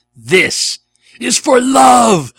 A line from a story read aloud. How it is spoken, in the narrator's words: Goku screamed